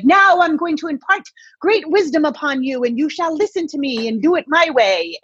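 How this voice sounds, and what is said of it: High-strung, lecturing teacher voice. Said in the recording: “this different person who's super high strung ... teacher voice”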